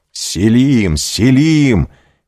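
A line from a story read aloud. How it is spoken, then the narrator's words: Shouting. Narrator (Russian): кричал он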